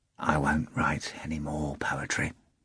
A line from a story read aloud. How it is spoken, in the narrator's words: Ivan said quietly